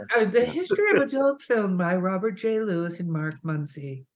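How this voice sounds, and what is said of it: Public radio announcer voice. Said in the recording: “using my NPR voice”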